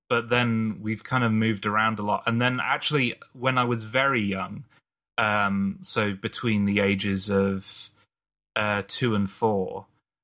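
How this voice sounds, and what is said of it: Mixed British accent, slightly American. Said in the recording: “a bit of an American accent ... my kind of confused British accent, where it's all over the place.”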